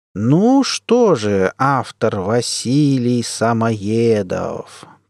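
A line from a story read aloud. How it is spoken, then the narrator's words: Savoring drawl. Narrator (Russian): протянул главред, словно попробовал имя на вкус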